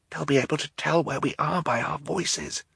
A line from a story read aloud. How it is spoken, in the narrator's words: he whispered